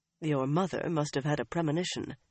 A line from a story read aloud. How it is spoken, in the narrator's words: he murmured with a smile